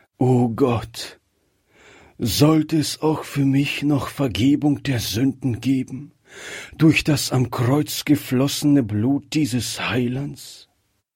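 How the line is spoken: Heartfelt sigh. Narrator (German): kam dieser Seufzer aus seinem Herzen

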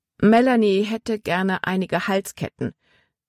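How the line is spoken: Plain. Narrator (German): sagte Frau Weaver

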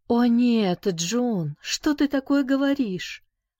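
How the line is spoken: Exclaimed. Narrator (Russian): воскликнула она

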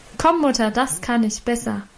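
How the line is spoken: Calling out. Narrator (German): rief sie dazu

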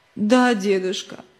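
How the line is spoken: Sobbing boy. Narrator (Russian): всхлипывая ответил мальчик

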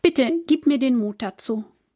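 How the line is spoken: Quiet prayer. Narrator (German): betet Lena leise

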